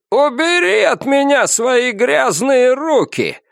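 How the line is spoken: Shouted. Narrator (Russian): закричал Дэн Ян

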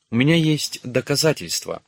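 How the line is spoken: Young woman exclaiming. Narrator (Russian): воскликнула наша красавица

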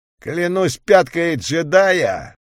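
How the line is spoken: Ominous booming. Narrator (Russian): зловеще прогудел Фитас

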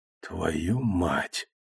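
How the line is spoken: Muttering. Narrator (Russian): пробормотал я

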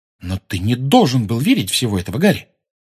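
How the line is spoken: Sudden sharp rebuke. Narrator (Russian): вдруг резко сказала

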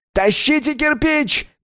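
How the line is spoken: Male shouting. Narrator (Russian): кричал он

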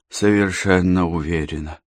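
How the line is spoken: Hoarse voice. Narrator (Russian): произнесла хриплым голосом Катерина

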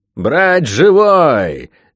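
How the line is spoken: Roaring from above. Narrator (Russian): проревел наверху невидимый лорд Спенсер

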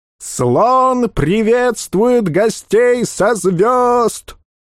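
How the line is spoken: Puny herald yelling. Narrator (Russian): Орал тщедушный, тощий, как глист, глашатый

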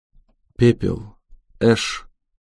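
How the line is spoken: Quiet. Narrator (Russian): тихо сказала Харпер

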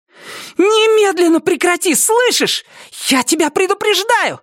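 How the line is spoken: Shout. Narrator (Russian): Закричала она на Нормана

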